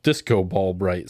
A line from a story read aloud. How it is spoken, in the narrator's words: says Flipto